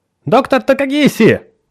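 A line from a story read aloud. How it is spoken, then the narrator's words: Shout. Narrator (Russian): выкрикнула она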